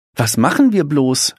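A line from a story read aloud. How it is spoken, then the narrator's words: Excited question. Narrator (German): fragt Frau Neder aufgeregt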